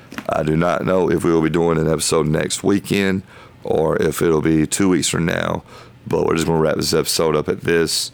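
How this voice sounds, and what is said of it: Hoarse, strained voice. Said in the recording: “I feel like I'm losing my voice. I think I'm getting sick.”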